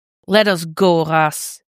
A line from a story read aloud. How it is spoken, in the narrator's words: Dick growls